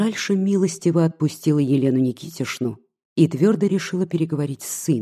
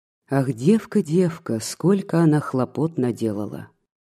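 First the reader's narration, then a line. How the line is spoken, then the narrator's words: Sigh. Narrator (Russian): вздохнула Елена Никитишна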